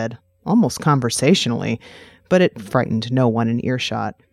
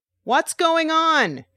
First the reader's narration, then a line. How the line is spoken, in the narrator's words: said loudly